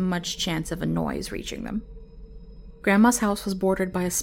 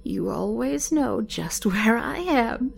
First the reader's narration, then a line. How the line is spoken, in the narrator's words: she chuckled